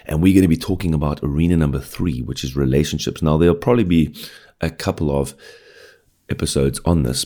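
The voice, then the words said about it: Early-morning voice. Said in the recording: “it's once again a Friday morning early, as you can probably hear from my voice”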